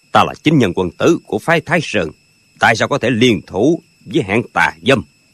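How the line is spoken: Cold. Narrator (Vietnamese): Sư bá mới lạnh lùng nói

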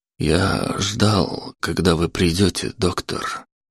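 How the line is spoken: Barely audible. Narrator (Russian): еле слышно произнес Антон

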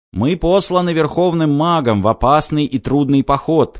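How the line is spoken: Shouting knight. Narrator (Russian): кричал один из самых уважаемых рыцарей

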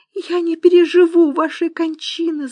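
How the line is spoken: Sobbing. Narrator (Russian): зарыдала она

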